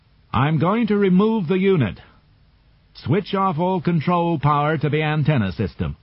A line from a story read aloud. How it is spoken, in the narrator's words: Poole called out over the radio